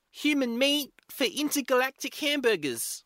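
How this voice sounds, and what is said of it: New Zealand accent. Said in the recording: “The New Zealand accent really improves it ... I got too distracted by the accent.”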